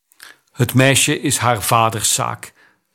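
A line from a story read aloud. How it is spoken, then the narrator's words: Plain. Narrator (Dutch): zei de Kandakei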